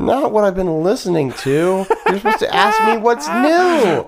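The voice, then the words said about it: Childlike whiny delivery. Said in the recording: “dude, you sound like my kid”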